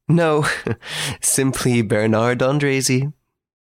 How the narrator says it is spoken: I laughed and replied

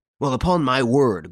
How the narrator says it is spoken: growled the bewildered inspector

